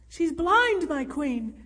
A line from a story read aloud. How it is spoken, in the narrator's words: Alfild cried desperately